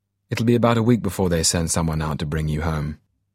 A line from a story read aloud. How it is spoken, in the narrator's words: He said abruptly, almost harshly, perhaps Major Smythe thought to hide his embarrassment